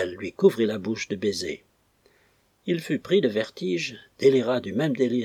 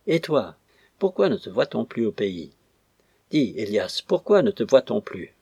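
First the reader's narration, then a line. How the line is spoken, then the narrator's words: Delirious moaning. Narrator (French): Et son délire croissant, elle se mit à lui gémir sur le visage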